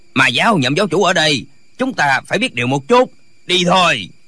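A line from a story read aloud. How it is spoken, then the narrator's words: Old man shouting. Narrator (Vietnamese): Lão vẫy tay quát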